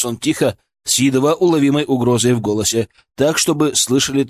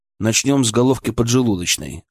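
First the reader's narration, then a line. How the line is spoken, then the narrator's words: Calm reply. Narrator (Russian): ответил я также спокойно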